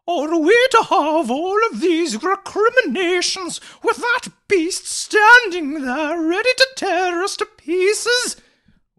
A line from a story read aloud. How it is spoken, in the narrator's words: wailed Mavis indignantly